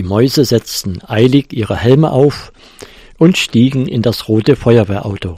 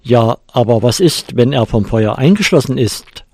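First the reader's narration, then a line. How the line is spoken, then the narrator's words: Plain question. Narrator (German): fragte der Feuerwehrhauptmann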